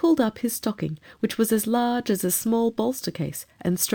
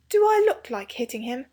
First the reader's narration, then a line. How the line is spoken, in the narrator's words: said Robert scornfully